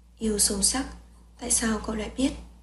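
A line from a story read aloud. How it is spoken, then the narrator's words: Quiet question. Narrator (Vietnamese): Bạch Nhược Hạ nhỏ giọng hỏi lại Cố Trì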